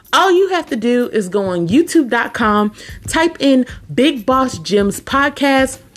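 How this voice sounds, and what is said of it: Excited, energetic voice. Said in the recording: “I'm so excited. I know you can hear it in my voice.”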